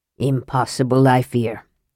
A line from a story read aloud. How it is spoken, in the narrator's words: Hornfell returned gravely